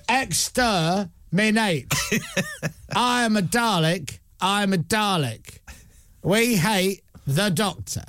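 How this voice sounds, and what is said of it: Dalek robot voice, Cockney tinge. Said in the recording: “sounds like a Cockney Dalek”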